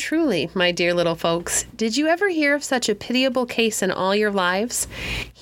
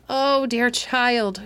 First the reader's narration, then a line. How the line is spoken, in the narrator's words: groaned Midas dolefully